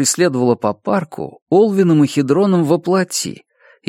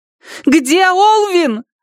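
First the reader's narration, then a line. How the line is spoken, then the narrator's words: Shouting. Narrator (Russian): закричала она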